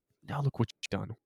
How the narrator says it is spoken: whispered, exasperated

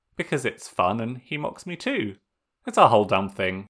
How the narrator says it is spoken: Sokka said with another short laugh

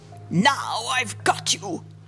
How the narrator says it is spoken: he growled

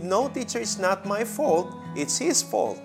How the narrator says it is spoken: that quarrelsome boy exclaimed

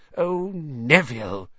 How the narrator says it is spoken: he heard the old woman sigh

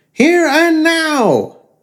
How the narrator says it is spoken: it screeched point blank

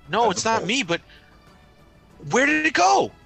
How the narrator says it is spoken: She says excitedly

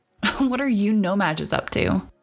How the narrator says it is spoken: Rory laughed

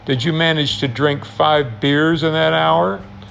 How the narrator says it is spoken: he sneered

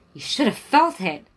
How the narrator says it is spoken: Lori yelped

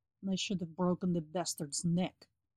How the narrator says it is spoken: he murmured

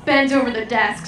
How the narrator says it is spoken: said

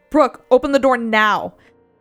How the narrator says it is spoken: yelling

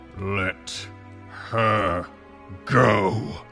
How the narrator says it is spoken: he growled, his voice dangerous

